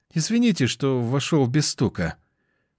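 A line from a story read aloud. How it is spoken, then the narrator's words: Dejected young man's voice. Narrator (Russian): поникшим голосом сказал молодой человек, осознав свою вторую ошибку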